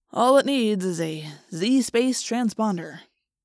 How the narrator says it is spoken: Jake said wearily

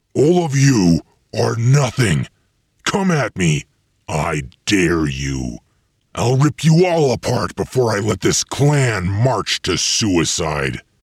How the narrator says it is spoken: He roared

